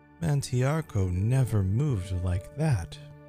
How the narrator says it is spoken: Voken chuckled

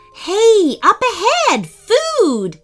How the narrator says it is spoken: Slade shouted

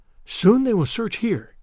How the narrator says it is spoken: whispered the girl

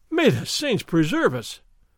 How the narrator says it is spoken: Don Diego cried

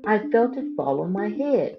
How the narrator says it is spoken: Chicken Little exclaimed

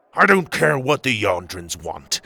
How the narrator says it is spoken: Tuga growled

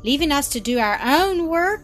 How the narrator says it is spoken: cried Mildred

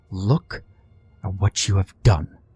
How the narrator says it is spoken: hissing

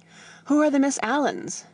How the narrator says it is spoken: Freddy panted

